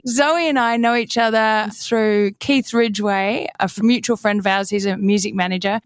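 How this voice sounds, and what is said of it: Australian accent. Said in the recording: “I love having other Australians other than ... on the show as well, because I love the accent so much ... your accent might get stronger than now talking to another Aussie.”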